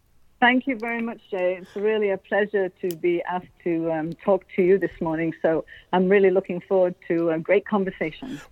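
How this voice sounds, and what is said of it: English accent, not French-Canadian. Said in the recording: “your accent does not appear to be French-Canadian. You originally are from Derbyshire. Is that correct, in England?”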